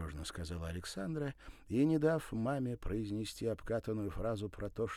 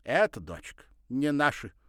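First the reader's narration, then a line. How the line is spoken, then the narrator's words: Stern mother. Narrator (Russian): строго сказала мама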